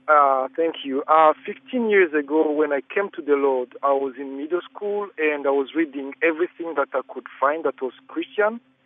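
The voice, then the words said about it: African accent. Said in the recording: “I am African, so I hope you bear with my accent.”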